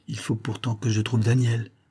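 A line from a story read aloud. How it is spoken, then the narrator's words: Young man murmuring. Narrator (French): murmura le jeune homme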